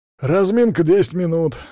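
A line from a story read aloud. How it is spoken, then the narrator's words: Barked command. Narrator (Russian): рявкнул кабанчик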